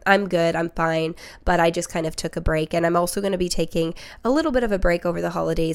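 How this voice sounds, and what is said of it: Slightly nasal, congested voice. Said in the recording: “I'm a little sick. So if I sound a little nasally”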